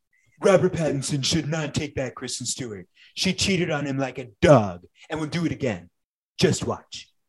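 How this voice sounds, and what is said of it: Impression of Donald Trump. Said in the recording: “do an impression? ... Yes. ... Donald Trump famously tweeted”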